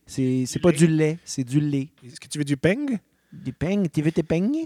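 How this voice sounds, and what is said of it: Put-on Marseille French accent. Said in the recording (French): “Marseille. Oui, un accent là-bas.”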